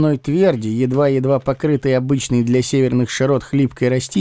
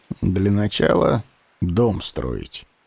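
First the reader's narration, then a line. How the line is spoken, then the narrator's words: Gloomy pronouncement. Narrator (Russian): мрачно изрек я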